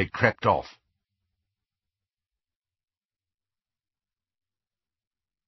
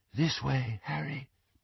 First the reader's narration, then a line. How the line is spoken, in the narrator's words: breathed Luna